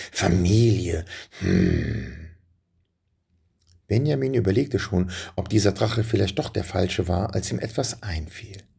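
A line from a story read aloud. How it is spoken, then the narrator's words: Thoughtful murmur. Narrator (German): murmelte der Drache nachdenklich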